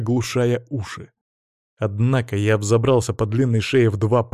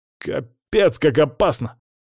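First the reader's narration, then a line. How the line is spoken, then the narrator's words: Exclaiming. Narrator (Russian): воскликнул Димон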